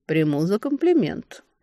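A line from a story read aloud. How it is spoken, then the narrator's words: Mocking reply. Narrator (Russian): насмешливо отозвался Элрой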